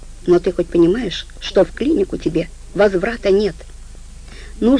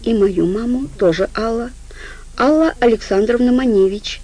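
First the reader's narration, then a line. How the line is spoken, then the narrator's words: Sad reply, woman. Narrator (Russian): грустно ответила она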